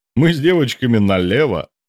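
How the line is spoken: Chuckling. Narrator (Russian): хохотнул Генка

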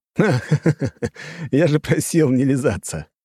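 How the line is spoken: Laughing. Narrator (Russian): расхохотался я

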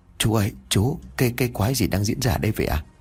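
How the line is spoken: Frightened stammering question. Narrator (Vietnamese): Tôi vẫn chưa hết sợ hãi ngồi dưới đất lắp bắp mà hỏi

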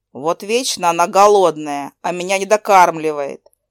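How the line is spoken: Grumbling. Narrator (Russian): проворчал Шарик

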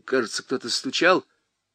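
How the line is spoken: Uncertain voice. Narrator (Russian): неуверенно говорил

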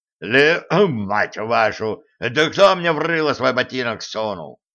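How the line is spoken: Gnome's growl. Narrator (Russian): рыкнул гном

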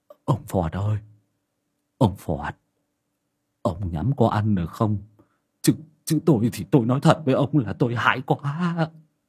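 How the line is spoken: Old man's trembling question. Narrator (Vietnamese): lão Lâm Sẹo run run hỏi thầy môn Phọt

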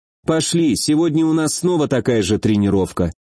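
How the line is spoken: Calm. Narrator (Russian): спокойно произнесла она

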